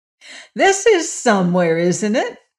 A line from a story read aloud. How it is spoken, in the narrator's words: asked the Patchwork Girl, laughing